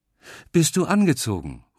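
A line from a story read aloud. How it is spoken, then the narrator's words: Calling out. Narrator (German): ruft sie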